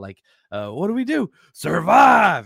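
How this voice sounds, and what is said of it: Robert Downey Jr. Tropic Thunder impression. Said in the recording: “my best Robert Downey Jr. impersonation, Tropic Thunder”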